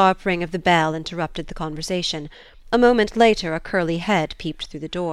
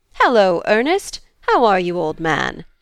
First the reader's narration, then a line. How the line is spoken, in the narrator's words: the intruder cried, with a laugh in his voice